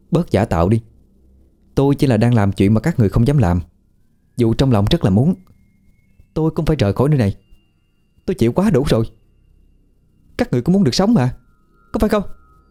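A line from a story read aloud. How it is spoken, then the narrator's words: Loud laughter. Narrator (Vietnamese): Hòa lại cười lớn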